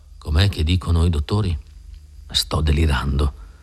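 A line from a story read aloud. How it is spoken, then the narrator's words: Mumbling. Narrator (Italian): farfugliava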